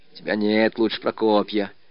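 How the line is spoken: Grumbling. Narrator (Russian): ворчала Марья

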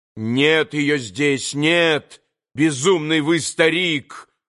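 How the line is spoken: Angry shout. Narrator (Russian): злобно закричал на него Иван

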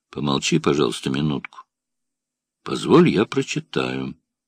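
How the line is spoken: Cold. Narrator (Russian): сказал Суменков холодно

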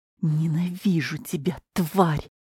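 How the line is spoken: Angry hiss. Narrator (Russian): зло прошипела Клавдия

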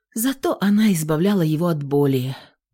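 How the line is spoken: Sigh. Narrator (Russian): вздохнула Инна

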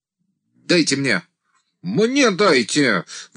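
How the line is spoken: Sudden shout, peasant leader. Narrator (Russian): вдруг закричал вожак примкнувших к отряду мужиков

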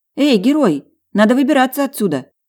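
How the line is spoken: Shouted. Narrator (Russian): крикнула я

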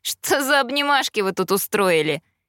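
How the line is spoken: Sly, mocking inquiry. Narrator (Russian): Ехидно улыбнувшись, поинтересовался Эштон

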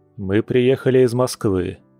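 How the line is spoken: Calm terse man. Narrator (Russian): лаконично и спокойно произнес мужчина

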